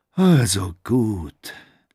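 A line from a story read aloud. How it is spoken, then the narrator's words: Sigh. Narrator (German): seufzte Durbas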